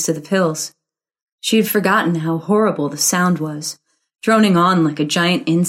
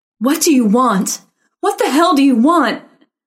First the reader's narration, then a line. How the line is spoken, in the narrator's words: Karen meant to say, but shrieked it instead